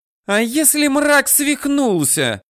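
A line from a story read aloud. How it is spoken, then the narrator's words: Near-shriek. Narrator (Russian): чуть не завизжала Алконост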